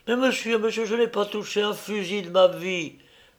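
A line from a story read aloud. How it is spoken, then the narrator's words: Terrified childlike pleading. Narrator (French): dit alors Totobus, affolé de terreur, avec des gestes de petit enfant qui supplie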